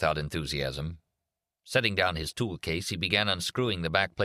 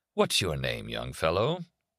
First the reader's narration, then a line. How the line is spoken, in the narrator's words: Kindly Dad said in a warm, sympathetic voice